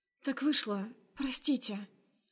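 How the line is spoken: Barely audible babble. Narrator (Russian): Лепечу еле слышно

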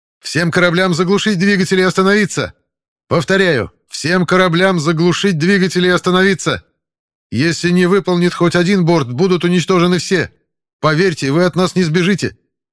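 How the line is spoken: Shouting over radio. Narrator (Russian): крикнул я в эфир

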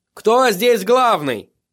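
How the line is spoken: Shout. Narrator (Russian): крикнул он

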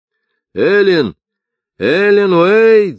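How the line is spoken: Shouting. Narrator (Russian): закричал Поль Ховер

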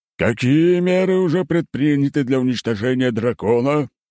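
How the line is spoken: Booming pronouncement. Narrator (Russian): зычным голосом изрек правитель

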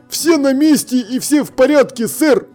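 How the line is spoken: Barking. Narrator (Russian): рявкнул он

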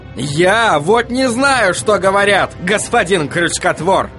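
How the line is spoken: Yelling. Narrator (Russian): заорал Вильям

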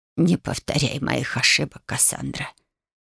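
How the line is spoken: Quiet, pained plea. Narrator (Russian): тихо попросила Ба, и в ее голосе прозвучало столько боли

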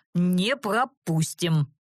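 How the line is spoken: Hoarse bass, woman confirming. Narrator (Russian): простуженным басом подтвердила вторая

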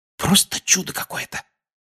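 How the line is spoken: Whisper. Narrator (Russian): прошептал он

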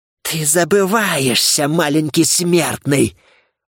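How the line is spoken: Menacing hiss. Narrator (Russian): угрожающе прошипела Кера

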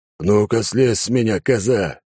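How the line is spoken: Roaring. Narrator (Russian): взревел клоун

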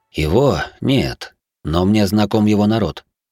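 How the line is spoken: Calm. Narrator (Russian): ответил он спокойно

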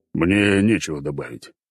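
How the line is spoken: Old man's deep voice. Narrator (Russian): пробасил старик

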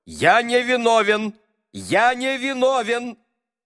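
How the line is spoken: Loud repeated insistence. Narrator (Russian): через каждые 5 минут он только громко уверял

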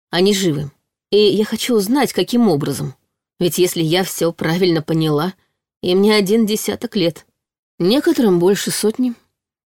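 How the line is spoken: Calm casual confirmation. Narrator (Russian): подтвердил Казаков спокойно, будто обсуждал погоду

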